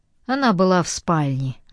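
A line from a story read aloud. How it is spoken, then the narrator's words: Sighing. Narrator (Russian): вздохнул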